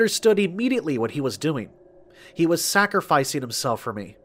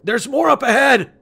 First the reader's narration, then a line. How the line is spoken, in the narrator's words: yelled